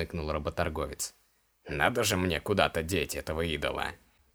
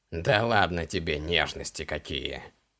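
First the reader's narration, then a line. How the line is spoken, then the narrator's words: Snorting. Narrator (Russian): хмыкнул работорговец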